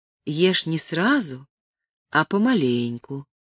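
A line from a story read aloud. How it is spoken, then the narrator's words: Even voice. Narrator (Russian): сказала она ровным голосом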